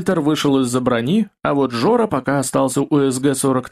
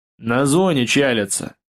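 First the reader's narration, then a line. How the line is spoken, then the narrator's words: Grumbled. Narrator (Russian): буркнул Сомов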